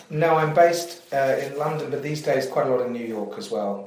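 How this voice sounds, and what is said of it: English accent. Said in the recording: “like me, an English accent”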